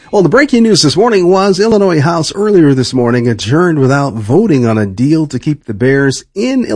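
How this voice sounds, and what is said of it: Usual voice. Nothing is said of it.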